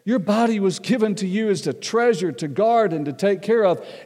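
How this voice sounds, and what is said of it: Southern American accent. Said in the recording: “I still have a southern accent”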